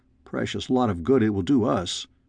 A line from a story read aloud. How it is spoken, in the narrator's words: I growled back